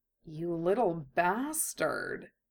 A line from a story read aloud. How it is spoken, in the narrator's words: Kurama murmured to himself, almost appreciatively